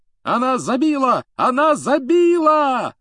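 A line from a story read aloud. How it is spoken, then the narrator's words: Yelling. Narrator (Russian): завопил Джордан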